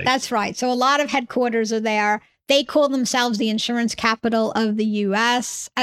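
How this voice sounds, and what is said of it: New York accent. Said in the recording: “I come from New York originally, hence my accent.”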